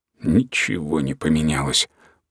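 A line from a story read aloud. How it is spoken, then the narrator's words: Muttered to himself. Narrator (Russian): пробормотал Бурлак про себя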